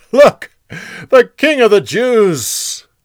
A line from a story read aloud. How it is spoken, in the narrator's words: They laughed and said